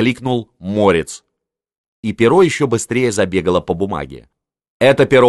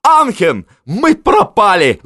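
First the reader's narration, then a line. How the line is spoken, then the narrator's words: Sobbing. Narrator (Russian): зарыдал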